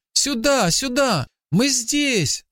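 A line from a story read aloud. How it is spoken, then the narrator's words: Child shouting. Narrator (Russian): закричал мальчик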